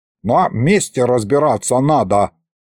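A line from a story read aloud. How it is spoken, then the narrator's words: Offended grumbling. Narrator (Russian): пробурчал обиженный Лиховид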